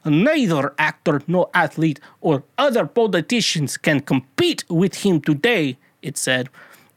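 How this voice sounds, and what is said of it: Put-on Russian accent. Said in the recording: “my Russian accent”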